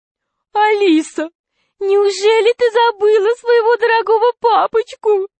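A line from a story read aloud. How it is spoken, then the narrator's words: Whiny, tearful man. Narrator (Russian): сказал толстяк плаксивым голосом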